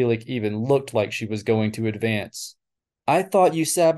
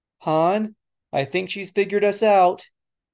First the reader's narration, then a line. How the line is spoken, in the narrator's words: Leia screamed into her headset